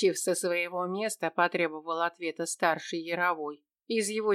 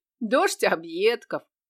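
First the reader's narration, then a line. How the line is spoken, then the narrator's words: Snort. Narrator (Russian): хмыкнул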